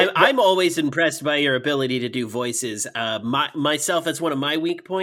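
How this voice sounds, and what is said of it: Usual voice. Nothing is said of it.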